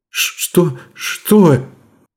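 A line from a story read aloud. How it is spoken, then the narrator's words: Strained, stunned words. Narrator (Russian): Только и смогла выдавить из себя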